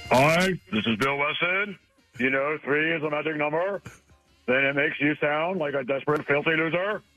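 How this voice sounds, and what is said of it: Imitates another person's voice. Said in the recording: “answer it with a Bill Weston ... speaking a la Bill Weston”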